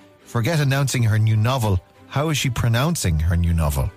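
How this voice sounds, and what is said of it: Usual voice. Nothing is said of it.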